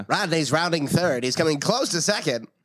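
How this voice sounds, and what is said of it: High-pitched old-time baseball announcer. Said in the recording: “high pitch baseball announcer”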